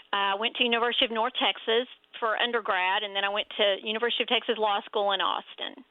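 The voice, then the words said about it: Texas accent. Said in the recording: “you can tell from my Texas accent”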